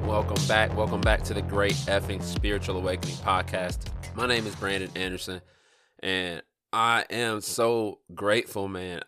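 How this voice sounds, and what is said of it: Stuffy, congested voice. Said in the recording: “I sound a little stuffy ... My nose is got some issues going on with it”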